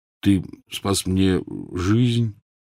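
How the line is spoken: Muttered. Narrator (Russian): тот пробормотал

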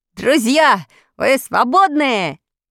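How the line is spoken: Boy shouting. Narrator (Russian): крикнул мальчик

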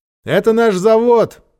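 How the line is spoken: Shouted. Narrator (Russian): прокричал Ольге Георгий

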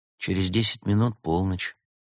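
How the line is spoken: Quiet. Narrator (Russian): тихо произнесла Берта

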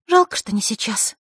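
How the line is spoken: Sigh. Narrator (Russian): вздохнула Василиса

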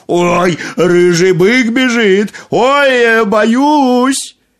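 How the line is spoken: Fake-frightened shout. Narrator (Russian): Нарочно испугался и закричал

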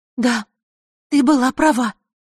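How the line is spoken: Agitated. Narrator (Russian): взволнованно произнесла она

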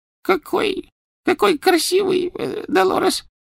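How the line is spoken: Soft babbling. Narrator (Russian): пролепетала она

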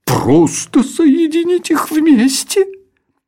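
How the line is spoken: Pained royal exclamation. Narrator (Russian): С болью в голосе воскликнул король Камуфель

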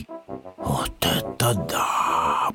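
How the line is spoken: Whisper. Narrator (Russian): прошептал Пэтсон

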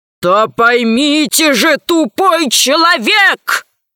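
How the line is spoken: Growl into microphone. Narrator (Russian): зарычал в микрофон Громозека

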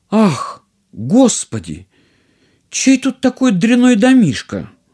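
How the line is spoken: Princess exclaiming. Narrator (Russian): принцесса воскликнула

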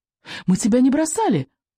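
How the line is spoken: Squeak. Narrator (Russian): пискнул Рыбьенок

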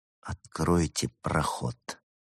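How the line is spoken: Quiet demand. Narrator (Russian): тихо потребовал он

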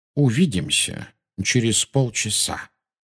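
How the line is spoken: Quiet. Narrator (Russian): тихо сказал Дамблдор

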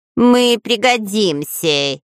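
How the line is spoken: Nasal promising voice. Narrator (Russian): гнусавым голосом пообещал Дырка

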